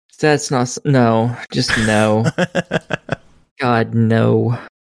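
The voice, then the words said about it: Unhappy, dismayed groaning delivery. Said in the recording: “You sound so happy”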